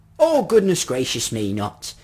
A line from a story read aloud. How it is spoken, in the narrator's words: he cried